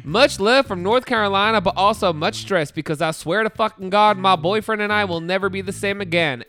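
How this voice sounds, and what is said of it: Put-on Southern accent. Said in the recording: “Okay, I'm going to read this in a southern accent.”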